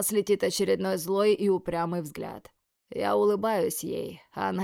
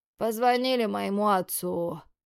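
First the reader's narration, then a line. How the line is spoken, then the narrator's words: Lazy telling. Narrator (Russian): лениво рассказывает Юга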